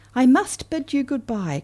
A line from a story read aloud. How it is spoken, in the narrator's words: cried the swallow